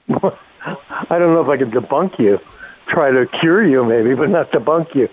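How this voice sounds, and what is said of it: Slurred, sluggish speech. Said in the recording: “your voice is a little slurry today ... your voice is very sluggish today ... I think it slowed your tongue down”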